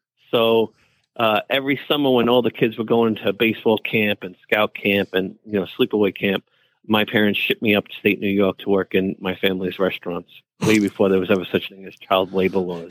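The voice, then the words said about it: Deep New York accent. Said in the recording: “my deep New York accent does come out every once in a while”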